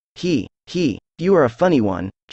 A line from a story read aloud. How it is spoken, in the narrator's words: chuckled the inspector